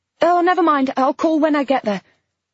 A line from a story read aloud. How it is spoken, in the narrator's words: shouted back, and then, impatiently